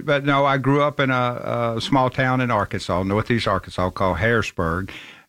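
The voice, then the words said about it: Southern American accent. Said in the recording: “people are going to love your accent as soon as you begin to speak... I'm from Memphis, Tennessee”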